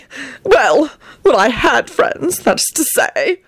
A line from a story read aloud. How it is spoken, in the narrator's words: he added pathetically and choked back a sob